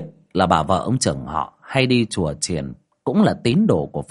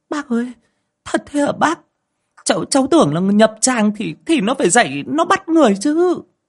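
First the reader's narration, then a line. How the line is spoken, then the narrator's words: Shrieking. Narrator (Vietnamese): Chị Dung rú lên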